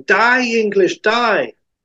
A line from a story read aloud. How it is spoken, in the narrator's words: A special maniac shouting